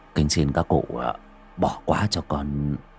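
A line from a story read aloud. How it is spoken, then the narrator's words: Mumbled. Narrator (Vietnamese): lẩm bẩm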